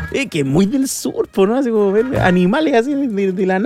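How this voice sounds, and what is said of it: Usual voice. Nothing is said of it.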